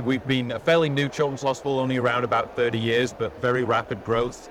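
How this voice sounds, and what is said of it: English accent with American influence. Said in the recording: “So your accent, I'm trying to place it, is that Southern Arizona? ... I'm a little bit of Arkansas tension in there. So no, I come from England originally.”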